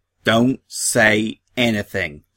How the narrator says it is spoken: snapped Applebloom

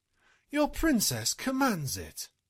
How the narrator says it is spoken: adding in her best imperious tone

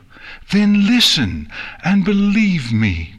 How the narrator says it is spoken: Twilight pleaded

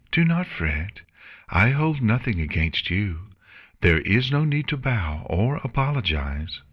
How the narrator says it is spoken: Celestia replied in a calm voice

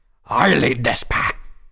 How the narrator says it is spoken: he spat

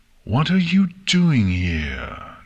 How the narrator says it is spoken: Nightmare asked, her voice dripping with hatred

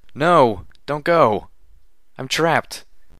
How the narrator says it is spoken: I cried out, my hind legs crushed under a fallen wall

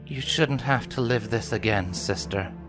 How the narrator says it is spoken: Luna said gently

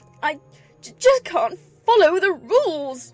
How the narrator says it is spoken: she exclaimed in despair

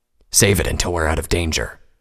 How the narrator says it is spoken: Vanguard grunted

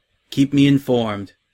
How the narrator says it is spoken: Celestia replied

